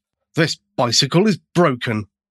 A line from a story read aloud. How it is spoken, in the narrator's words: finally exclaimed